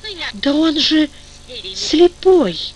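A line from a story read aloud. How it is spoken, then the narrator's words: Pitying sob. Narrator (Russian): всхлипнула жалостливая Зоря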